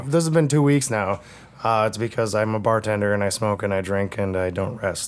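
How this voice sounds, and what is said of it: Hoarse, mostly lost voice. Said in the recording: “My voice is still gone... I'm still smoking, and I haven't healed... you didn't sound this bad”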